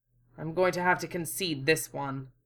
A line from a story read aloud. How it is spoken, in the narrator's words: muttered stiffly